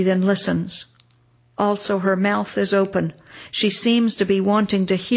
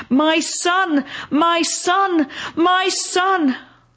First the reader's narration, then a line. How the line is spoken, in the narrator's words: She stretches out her hands in the dark air and shouts